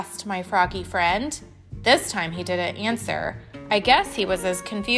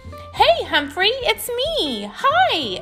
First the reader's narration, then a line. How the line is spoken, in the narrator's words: shouted